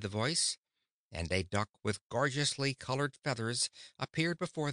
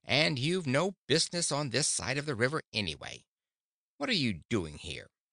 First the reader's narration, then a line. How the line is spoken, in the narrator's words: continued the duck in an irritated voice